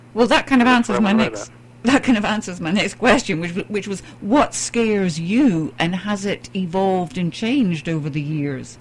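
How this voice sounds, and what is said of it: British accent. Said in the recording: “you've got this lovely British accent”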